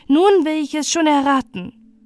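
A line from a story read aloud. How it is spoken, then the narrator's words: Called out. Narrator (German): rief Balte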